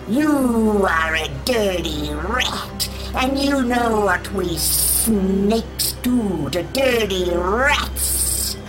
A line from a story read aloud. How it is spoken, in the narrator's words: it hissed